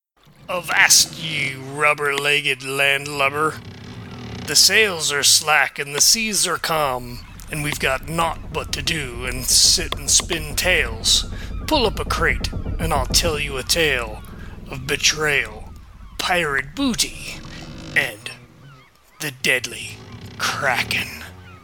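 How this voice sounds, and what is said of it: Pirate character voice. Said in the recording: “I can't do this whole thing in a pirate voice”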